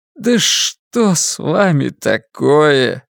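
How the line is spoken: Weak voice. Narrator (Russian): слабым голосом проговорил Джим

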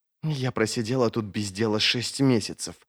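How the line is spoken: Slurred hiss. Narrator (Russian): зашипела слегка заплетающимся языком

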